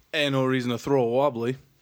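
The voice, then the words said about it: Put-on Australian accent. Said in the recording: “talk in Australian accents”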